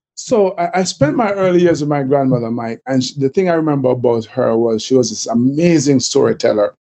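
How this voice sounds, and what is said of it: Jamaican accent. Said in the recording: “they're probably hearing from the accent that I'm Jamaican too. Cool accent”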